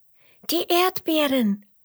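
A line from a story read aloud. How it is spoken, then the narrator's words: Excited calling. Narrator (German): rufen Emmerla und Roberto aufgeregt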